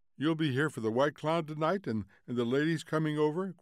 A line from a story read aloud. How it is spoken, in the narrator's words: cried Mildred